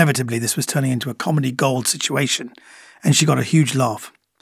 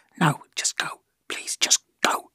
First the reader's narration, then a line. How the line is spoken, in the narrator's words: hiss back